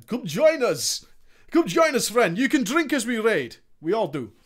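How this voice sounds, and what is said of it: Put-on Finnish accent, sounding Russian. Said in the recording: “That was more Russian than anything. ... That's my Finnish accent.”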